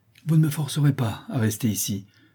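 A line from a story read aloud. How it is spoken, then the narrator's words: Exclaiming man. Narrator (French): s'écria le maître d'école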